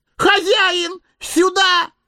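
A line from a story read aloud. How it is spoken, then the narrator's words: Sudden yell. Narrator (Russian): завопил вдруг Сэмми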